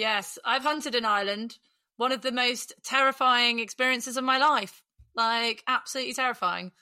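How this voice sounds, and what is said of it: Usual voice. Nothing is said of it.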